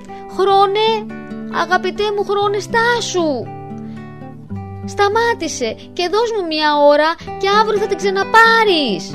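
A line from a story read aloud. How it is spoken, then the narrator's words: Shouted. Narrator (Greek): φώναξε ο Ιβάν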